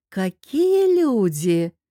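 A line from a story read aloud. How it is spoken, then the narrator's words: Drawn-out drawl. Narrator (Russian): протянула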